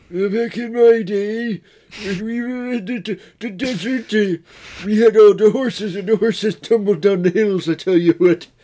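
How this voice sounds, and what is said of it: Exaggerated bad old man voice. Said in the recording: “an impression of an old man, but a bad one ... "Hey, do an old man voice,"”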